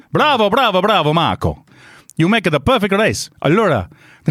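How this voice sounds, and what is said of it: Put-on Italian accent. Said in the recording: “Should I try and do an Italian accent? ... Not as good as Fredo. ... That's not bad.”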